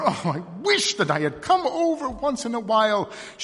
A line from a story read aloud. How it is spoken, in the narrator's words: she cried